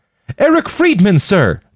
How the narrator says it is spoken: the young man cried back

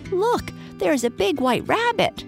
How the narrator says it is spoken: cried a squeaky voice

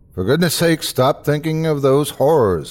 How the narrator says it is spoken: I called out to him

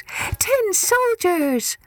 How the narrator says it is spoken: A small boy shouted it

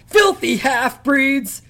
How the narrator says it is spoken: she screamed

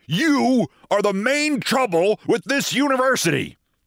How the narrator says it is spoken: snapped

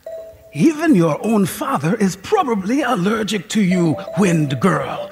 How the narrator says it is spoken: she said in her phlegmy voice

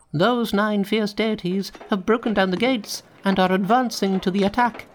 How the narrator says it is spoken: he cried

